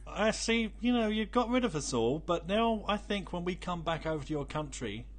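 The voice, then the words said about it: Rough British accent. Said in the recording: “that British accent comes out, even though I've got a rough British accent”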